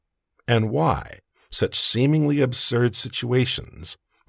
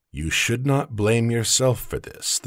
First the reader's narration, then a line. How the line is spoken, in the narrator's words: the sage said in an even, deep voice